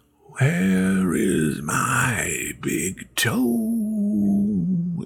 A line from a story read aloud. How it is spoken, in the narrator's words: it groaned